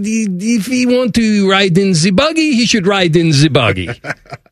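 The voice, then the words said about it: Put-on French accent. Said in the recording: “in this great French accent”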